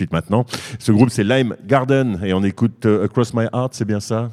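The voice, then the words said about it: Put-on accent on English title. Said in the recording (French): “t'as vu mon accent, il est beau”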